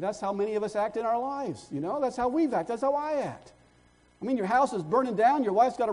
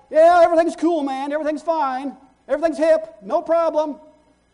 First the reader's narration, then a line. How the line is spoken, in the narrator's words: he shouts back